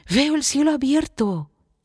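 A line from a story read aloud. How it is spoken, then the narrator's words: Exclaimed. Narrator (Spanish): exclamó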